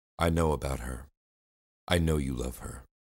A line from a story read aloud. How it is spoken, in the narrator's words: I said, my voice starting to break